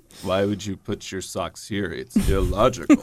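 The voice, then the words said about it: Spock impression. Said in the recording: “do the voice. ... Spock.”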